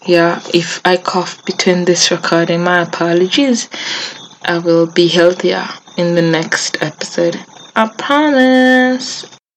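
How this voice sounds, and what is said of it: Sick, flu-affected voice. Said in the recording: “sorry for my voice. I'm coming down with the mother of all flus”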